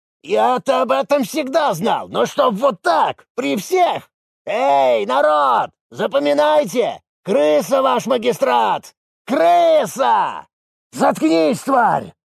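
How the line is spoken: Barked. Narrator (Russian): рявкнул Засыпкин

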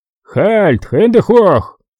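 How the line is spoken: Powerful booming bass shout. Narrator (Russian): крикнул он своим мощнейшим басом

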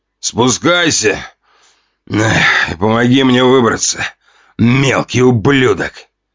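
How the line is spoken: Growl from darkness. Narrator (Russian): Прорычали из темноты

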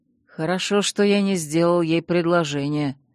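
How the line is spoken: Through gritted teeth. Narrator (Russian): процедил сквозь зубы его светлость

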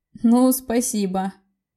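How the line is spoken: Sad, almost laughing. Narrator (Russian): Грустно, но все-таки почти засмеялся Дани

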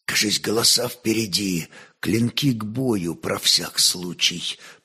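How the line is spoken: Whispered. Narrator (Russian): прошептал он

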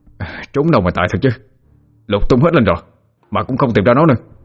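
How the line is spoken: Resentful, frustrated. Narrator (Vietnamese): hậm hực nói

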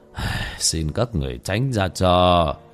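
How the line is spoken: Sighing. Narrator (Vietnamese): Bất Táng Hòa Thượng thở dài

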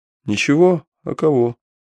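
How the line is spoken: Calm answer. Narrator (Russian): спокойно ответил Алексей

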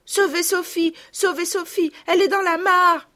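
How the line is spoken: Shouting. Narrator (French): criait Marguerite

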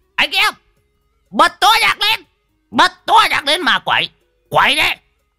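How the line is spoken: Wild howling yell. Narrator (Vietnamese): lão Đồng, mồm rú lên

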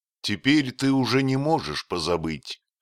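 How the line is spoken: Plain, after pause. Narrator (Russian): сказал наконец Дик

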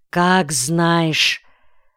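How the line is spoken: Muttered through clenched teeth. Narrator (Russian): не осмелился прямо и решительно отказать жене и только бросил сквозь зубы

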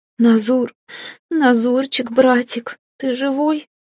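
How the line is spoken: Wailing and sobbing. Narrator (Russian): принялась подвывать и всхлипывать

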